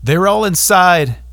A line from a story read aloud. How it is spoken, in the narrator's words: the boy yelled